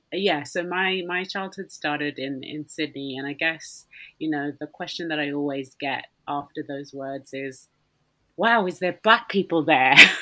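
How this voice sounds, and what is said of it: Mild Australian accent. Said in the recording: “I might have a bit of a twang. A lot of people think that's American, but I will assure you it's an Australian accent that you hear right now. It's a twang, so it's not a full-blown one.”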